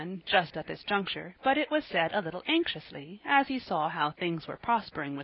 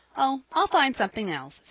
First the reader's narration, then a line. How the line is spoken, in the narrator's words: said Jappy, cheerfully